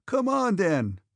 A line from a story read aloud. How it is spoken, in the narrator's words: cried Pierre